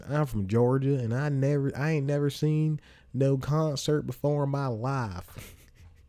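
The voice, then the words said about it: Put-on Southern Georgia accent. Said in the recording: “I throw an accent,”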